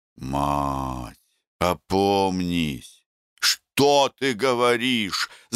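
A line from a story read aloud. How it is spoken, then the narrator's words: Groaning. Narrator (Russian): застонал Мухин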